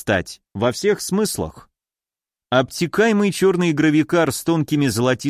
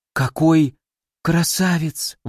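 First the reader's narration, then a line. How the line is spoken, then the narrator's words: Breathless, flustered. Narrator (Russian): выдохнула Кори, заливаясь румянцем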